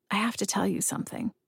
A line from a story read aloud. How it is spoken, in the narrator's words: I whisper